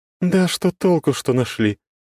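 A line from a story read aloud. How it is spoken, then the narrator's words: Goddess sighing. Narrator (Russian): вздохнула богиня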